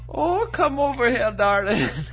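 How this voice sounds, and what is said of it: Put-on Irish accent. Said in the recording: “This is me best Irish accent that I can do.”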